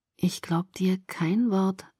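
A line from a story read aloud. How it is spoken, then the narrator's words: Gentle. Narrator (German): sagte er sanft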